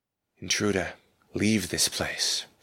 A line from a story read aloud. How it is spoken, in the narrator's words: came a soundless whisper to my mind